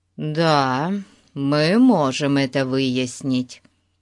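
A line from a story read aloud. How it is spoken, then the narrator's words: Plain. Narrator (Russian): сказал Фати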